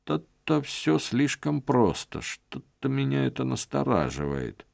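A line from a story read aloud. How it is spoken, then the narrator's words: Muttering. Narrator (Russian): забормотал Стефан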